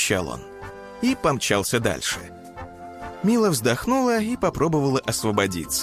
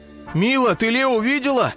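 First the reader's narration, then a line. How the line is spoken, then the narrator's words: Shout while running. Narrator (Russian): на бегу крикнул он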